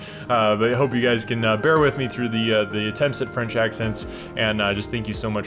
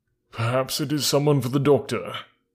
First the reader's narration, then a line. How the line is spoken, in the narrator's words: muttered her husband